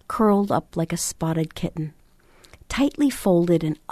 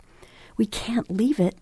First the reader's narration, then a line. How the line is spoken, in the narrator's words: Nash gasped